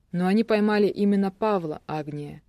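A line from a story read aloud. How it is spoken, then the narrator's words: Soft interruption. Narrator (Russian): мягко перебил Карпухин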